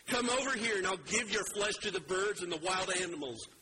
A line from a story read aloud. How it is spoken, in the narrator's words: Goliath yelled